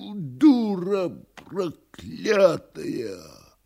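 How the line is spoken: Enraged wheezing. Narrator (Russian): С глазами, налитыми кровью, Никанор Иваныч хрипя

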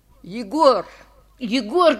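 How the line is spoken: Shouting. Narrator (Russian): кричал я

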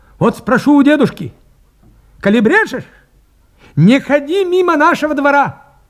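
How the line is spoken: Threatening shout. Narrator (Russian): крикнул, грозя кулаком

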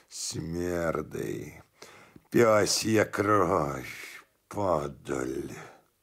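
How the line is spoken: Grumbling. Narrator (Russian): Федор ворчал

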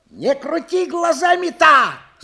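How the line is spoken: Sudden shout. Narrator (Russian): закричал вдруг Кафтанов

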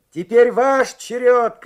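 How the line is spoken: Shouting. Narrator (Russian): крикнул он

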